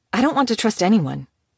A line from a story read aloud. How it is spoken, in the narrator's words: she blurted